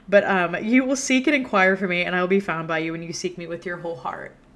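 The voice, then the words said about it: Emotional, choked-up reading voice. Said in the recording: “I'm getting emotional reading this.”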